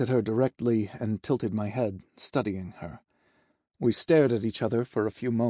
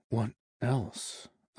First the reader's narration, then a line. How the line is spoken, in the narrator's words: whispered